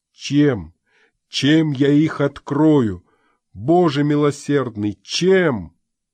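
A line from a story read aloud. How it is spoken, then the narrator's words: Exclaiming. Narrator (Russian): воскликнул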